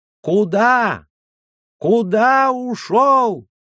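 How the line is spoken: Irritated shout. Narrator (Russian): закричал Юсси с раздражением

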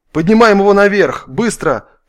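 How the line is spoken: Shouted. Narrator (Russian): крикнул Айболит

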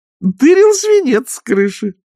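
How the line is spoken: Cheerful old nanny. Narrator (Russian): радостно сообщила нянюшка

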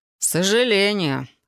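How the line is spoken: Wry snort. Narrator (Russian): хмыкнул Фил

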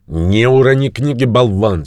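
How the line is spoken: Angry voice. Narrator (Russian): сердито сказал голос

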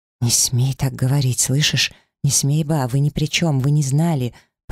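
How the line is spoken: Fast low whisper. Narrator (Russian): понизив голос, быстро прошептала я

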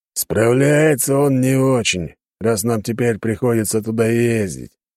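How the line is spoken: Gruff grumble, warrior. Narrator (Russian): заворчал бородатый воин

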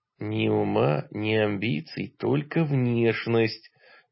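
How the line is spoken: Expressive whisper. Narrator (Russian): выразительным шепотом напомнил я

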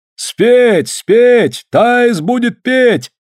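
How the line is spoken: Crowd shouting. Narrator (Russian): закричали со всех сторон

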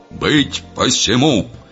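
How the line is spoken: Sudden loud bark over noise. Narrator (Russian): неожиданно громко рявкнул горох, перекрывая общий бардак

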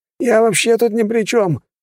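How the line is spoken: Stung, outraged yell. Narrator (Russian): завопил секретарь, как ужаленный

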